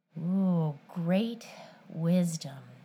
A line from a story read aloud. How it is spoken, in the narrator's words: she murmured